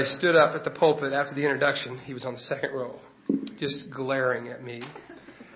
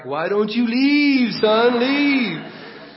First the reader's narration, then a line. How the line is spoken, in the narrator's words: I yelled back